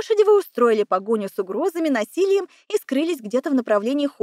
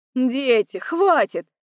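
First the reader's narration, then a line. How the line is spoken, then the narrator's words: Solemn announcement by mother. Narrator (Russian): объявила мама, торжественно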